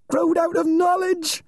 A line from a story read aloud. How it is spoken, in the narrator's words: screamed